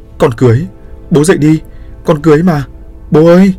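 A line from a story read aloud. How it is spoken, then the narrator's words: Loud wailing. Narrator (Vietnamese): gào lớn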